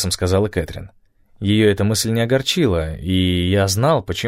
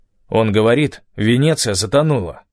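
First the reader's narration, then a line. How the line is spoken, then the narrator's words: Said coldly. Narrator (Russian): холодно произнес Стив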